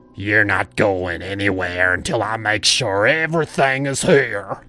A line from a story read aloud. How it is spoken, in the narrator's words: he growled